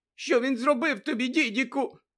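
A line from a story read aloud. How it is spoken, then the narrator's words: Trembling voice question. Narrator (Ukrainian): спитала тремтячим голосом тітка Петунія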